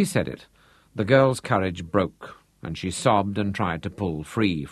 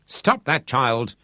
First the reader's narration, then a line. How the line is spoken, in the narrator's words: Trudy Bierman shook her irritably